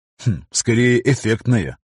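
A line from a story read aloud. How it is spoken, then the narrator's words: Smirking snort. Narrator (Russian): хмыкнул Виктор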